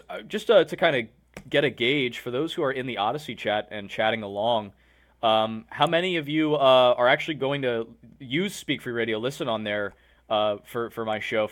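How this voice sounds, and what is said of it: Slightly hoarse voice. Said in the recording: “I fell under the weather ... My throat's a little bit hoarse, so I might get dry from talking a lot.”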